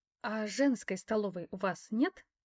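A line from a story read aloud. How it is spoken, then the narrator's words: Quiet question. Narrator (Russian): тихо спросила я у Захара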